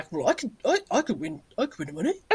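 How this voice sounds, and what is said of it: Imitates a clueless man's voice. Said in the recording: “That's my impression of men.”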